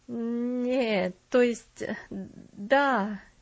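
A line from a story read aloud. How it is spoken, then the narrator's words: Hesitant mumble. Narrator (Russian): нерешительно пробормотал он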